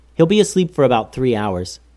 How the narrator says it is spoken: said Goose

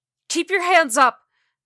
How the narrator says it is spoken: Ruthie yelled

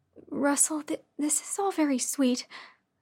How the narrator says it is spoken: I said nervously

